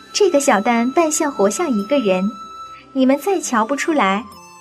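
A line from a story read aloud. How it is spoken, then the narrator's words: Laughing. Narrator (Chinese): 凤姐笑道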